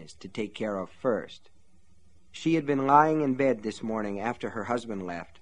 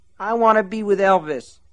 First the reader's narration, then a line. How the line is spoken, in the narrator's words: whined